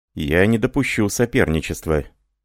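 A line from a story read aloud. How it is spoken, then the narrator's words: Dry objection. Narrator (Russian): сухо возразил Жорж Прадель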